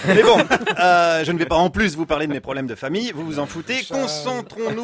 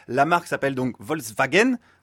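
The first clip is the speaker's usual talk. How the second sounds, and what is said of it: Mock German accent. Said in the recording (French): “pardonnez mon accent allemand”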